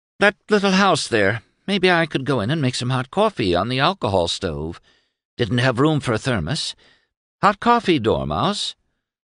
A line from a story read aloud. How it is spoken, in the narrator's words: Emma, sighing her way out of the car … said humbly